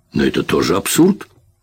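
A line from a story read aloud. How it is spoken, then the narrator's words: Snapping. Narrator (Russian): огрызнулась Тереза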